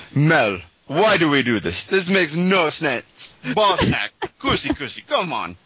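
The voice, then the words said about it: Put-on Hungarian accent. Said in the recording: “do an impression of Zsolt's accent ... it almost sounded like there's a little Rastafarian in there”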